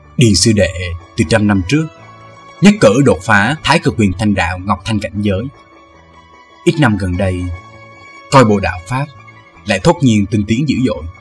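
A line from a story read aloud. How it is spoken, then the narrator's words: Soft but clear. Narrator (Vietnamese): Thương Tùng đạo nhân miệng đáp nhỏ nhẹ nhưng tiếng nói rõ ràng minh bạch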